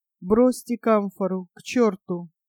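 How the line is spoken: Dry, weak, wounded voice. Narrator (Russian): сухо, слабо выговорил

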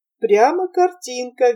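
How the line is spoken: Cheerful agreement. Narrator (Russian): весело согласился Ханс

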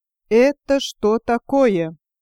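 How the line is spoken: Stern imposing question after pause. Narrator (Russian): внушительно и строго спросил барон после секунды-другой торжественного молчания

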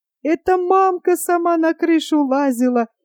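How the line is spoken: Squealing. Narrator (Russian): взвизгнула Светлана

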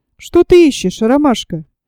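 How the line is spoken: Even voice, suppressed anger. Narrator (Russian): Кровь бросилась мне в голову, спросил ровным голосом

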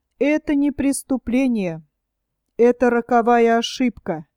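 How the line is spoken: Muffled gloomy reply. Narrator (Russian): глухо ответил Геринг, хмуро

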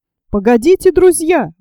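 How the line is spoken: Exclaimed. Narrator (Russian): воскликнул журналист

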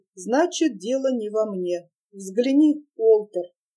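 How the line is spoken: Sighing. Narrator (Russian): вздохнул и проговорил

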